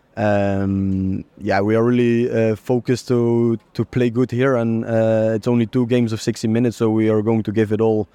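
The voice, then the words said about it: Dutch-accented English. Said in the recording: “your accent has turned more Dutch than French”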